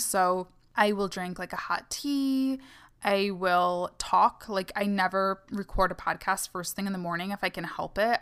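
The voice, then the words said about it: Tired, fading, worn-out voice. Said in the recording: “I'm recording this in the middle of the night and my voice is like dying out on me”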